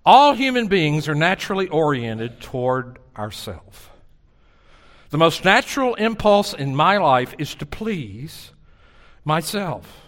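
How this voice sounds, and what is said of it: Southern American accent. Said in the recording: “when you have a southern accent”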